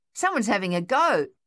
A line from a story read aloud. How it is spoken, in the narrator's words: Thaddeus yelled